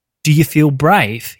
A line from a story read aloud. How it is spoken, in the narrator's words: he said to the startled parents in a gruff, neutral accent